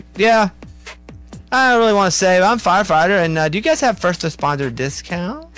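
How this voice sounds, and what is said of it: Imitates another person's accented voice. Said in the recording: “Wait, what is this accent? ... That's what he does. That's how he talks.”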